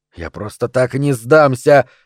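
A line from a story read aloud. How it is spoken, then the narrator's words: Muttering. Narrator (Russian): пробормотал Поп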